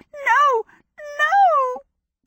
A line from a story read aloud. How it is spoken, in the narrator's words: the star crackled desperately